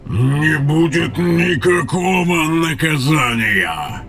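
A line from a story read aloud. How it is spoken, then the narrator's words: Roar. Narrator (Russian): Взревел Тейрн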